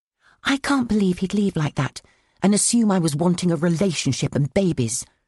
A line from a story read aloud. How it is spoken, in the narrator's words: I whispered into Miranda's feed